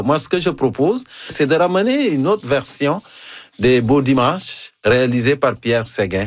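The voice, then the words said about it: African accent in French. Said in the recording (French): “mon accent africain ... C'est encore plus savoureux avec ton accent africain”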